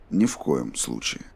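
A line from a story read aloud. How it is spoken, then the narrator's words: Even-toned. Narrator (Russian): ровным голосом ответил Роланд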